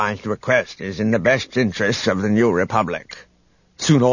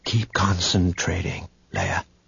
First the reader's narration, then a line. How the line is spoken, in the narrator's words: Luke whispered